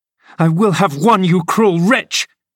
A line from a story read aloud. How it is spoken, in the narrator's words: she screamed